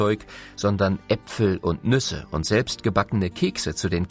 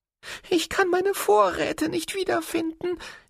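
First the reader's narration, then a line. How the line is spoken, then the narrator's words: Whining squirrel. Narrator (German): jammerte das Eichhörnchen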